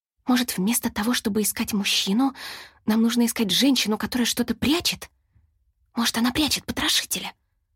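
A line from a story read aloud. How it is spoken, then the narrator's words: Whispered reply. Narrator (Russian): прошептала в ответ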